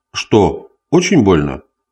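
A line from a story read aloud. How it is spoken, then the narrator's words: Cold indifferent question. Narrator (Russian): холодно спросил Гюс, не проявляя ни малейшего интереса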